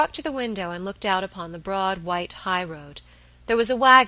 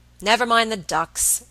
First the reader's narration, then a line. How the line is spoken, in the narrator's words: Robert said impatiently